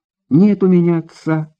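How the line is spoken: Girl's sigh. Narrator (Russian): вздохнула девушка

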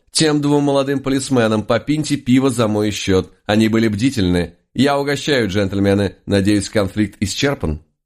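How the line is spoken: Loud, smiling. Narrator (Russian): улыбнулся лис … громко сказал

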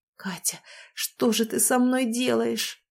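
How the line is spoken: Moaning against lips. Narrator (Russian): простонал он мне в губы

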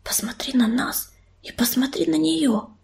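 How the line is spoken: Hissed into ear. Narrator (Russian): прошипела ему на ухо Белочка

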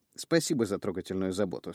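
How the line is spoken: Dry reply. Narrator (Russian): сухо ответил я

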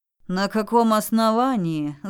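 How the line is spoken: Angry guard's retort. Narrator (Russian): зло бросил страж

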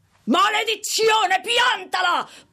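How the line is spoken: Shouting. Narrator (Italian): Paul D gridava

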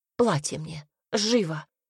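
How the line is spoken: Hoarse exclamation. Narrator (Russian): хрипло воскликнула Ирис

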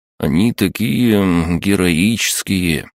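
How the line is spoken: Drawling. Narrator (Russian): протянул Егор

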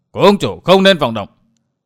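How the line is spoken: Sudden shout. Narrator (Vietnamese): bỗng có tiếng quát

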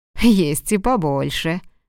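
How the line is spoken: Laughing. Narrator (Russian): рассмеялся Хэнк

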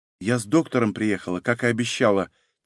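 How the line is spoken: Quiet. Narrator (Russian): тихо сказала Софья

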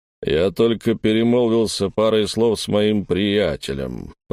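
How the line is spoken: Deep bass voice. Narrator (Russian): пробасил он

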